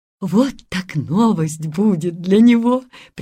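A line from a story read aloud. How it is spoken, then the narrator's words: Laughing. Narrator (Russian): приговаривала она, смеясь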